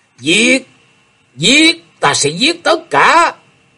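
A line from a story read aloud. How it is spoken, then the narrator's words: Delirious repeated screaming. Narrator (Vietnamese): Thế Hùng trong cơn mê, vẫn gào lên từng hồi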